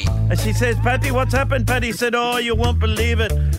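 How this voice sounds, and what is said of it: Badly done put-on accent. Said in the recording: “So not only a woeful accent”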